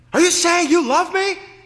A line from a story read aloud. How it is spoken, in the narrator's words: He yelled